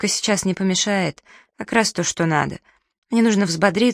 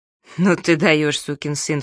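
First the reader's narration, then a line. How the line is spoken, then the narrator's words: Snorting. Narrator (Russian): фыркнул Найлз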